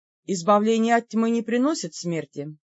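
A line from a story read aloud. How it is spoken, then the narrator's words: Dry priestly recitation. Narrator (Russian): сухо продекламировал священник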